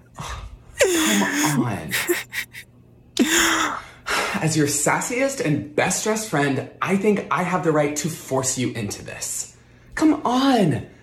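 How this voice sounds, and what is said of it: Sassy gay best friend voice. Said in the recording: “comedian Benito Skinner doing his best impression of her gay best friend who talks her into it. Spot on. Obviously, he did a great job.”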